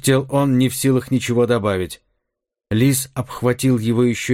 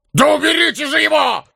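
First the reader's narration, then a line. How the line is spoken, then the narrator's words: Barking. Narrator (Russian): рявкнул Карвер на сотоварищей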